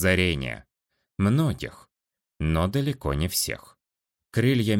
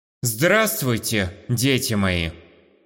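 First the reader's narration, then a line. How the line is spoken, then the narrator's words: Loud magically amplified announcement. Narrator (Russian): Громко объявил я, силой искры разгоняя воздух по залу, чтобы меня могли услышать абсолютно все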